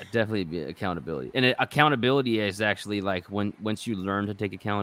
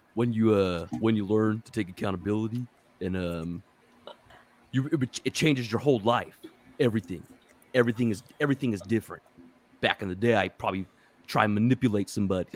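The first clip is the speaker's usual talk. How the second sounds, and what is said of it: Imitates another person's voice. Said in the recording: “my Shia LaBeouf impersonation ... That was really good”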